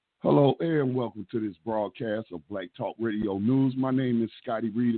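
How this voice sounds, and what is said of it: Slightly hoarse voice. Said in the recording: “If I sound like I'm a little hoarse, that's because ... I was at a protest and, yelling very loudly”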